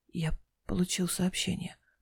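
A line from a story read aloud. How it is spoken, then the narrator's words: Secretive whisper. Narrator (Russian): прошептал он, словно кто-нибудь мог подслушать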